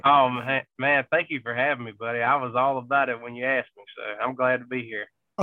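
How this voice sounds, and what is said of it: Southern country US accent. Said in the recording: “if you can't tell by ... accent there, he is as country as it gets ... You're from South Georgia”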